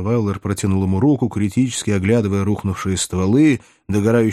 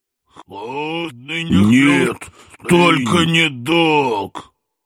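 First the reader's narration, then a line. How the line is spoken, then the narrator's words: Howling in near unison. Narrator (Russian): Едва ли не хором взвыли инопланетяне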